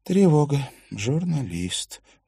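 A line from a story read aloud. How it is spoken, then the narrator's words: Sighing. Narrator (Russian): вздохнула Катрина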